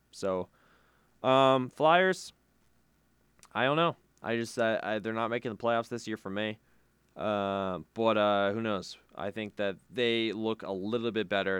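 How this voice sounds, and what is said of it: Dry, strained, fading voice. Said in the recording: “Coughing a little bit. Losing my voice, maybe. ... It's dry. It's dry.”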